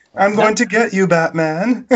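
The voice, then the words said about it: Posh British-sounding villain voice. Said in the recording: “Bane sounded like a giant pussy... I didn't know he was gonna offer again tea and crumpets. I was expecting that with his accent.”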